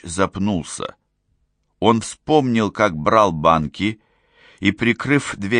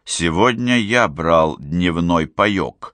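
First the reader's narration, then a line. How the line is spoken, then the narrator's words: Plain. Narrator (Russian): сказал ключ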